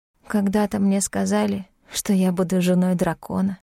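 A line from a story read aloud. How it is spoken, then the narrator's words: Bitter whisper. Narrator (Russian): прошептала горько Вельмина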